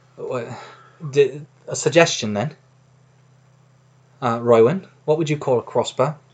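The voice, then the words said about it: Odd attempted Australian accent. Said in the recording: “Why are you talking like that weird. ... Australian ... No, wrong. ... accent has been slain.”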